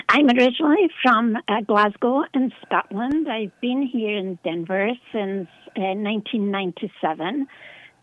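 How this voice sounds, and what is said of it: Scottish accent. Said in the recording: “by your accent and name, you are Scottish”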